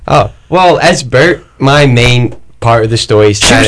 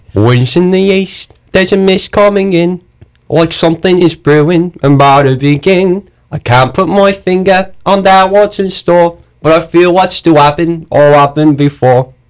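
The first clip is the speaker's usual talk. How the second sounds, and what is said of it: Put-on accent. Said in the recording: “Give me your best accent.”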